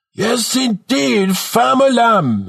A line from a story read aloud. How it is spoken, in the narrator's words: bellows in an exaggerated Jamaican accent